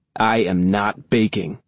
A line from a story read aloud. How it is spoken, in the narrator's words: Nine growls